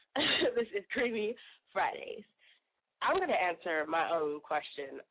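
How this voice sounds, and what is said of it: Sick-sounding, rough voice. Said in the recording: “excuse my voice, I'm a little sick”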